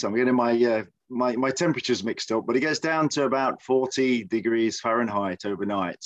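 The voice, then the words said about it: English Midlands accent. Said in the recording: “my accent originates from. If, if anybody's interested, it's from the Midlands of the United Kingdom ... I don't sound like uh, James Bond or the Queen”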